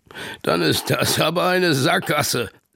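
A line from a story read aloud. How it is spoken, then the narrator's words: Grandfather laughing. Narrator (German): lacht Opa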